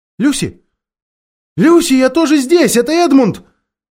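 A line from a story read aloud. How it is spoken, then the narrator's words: Calling out to someone nearby. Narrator (Russian): Он подумал, что сестра где-нибудь неподалеку, и крикнул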